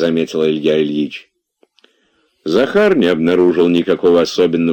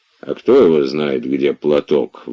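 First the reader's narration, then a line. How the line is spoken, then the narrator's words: Grumbling. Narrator (Russian): ворчал он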